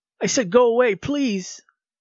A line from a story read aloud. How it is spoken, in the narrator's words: screamed Ben